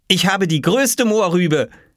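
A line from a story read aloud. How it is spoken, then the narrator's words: Calling out. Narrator (German): rief Oskar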